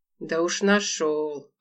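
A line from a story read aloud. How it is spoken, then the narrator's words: Hoarse, irritated. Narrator (Russian): ответил хриплым, раздраженным голосом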